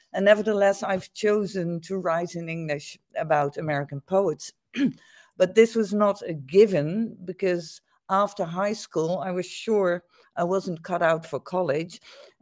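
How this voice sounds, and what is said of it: Dutch accent in English. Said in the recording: “as everybody, your listeners, I'm sure, can tell from my accent, I'm not an American, I'm Dutch”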